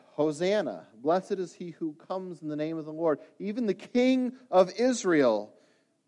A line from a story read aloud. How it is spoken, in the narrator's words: they cried out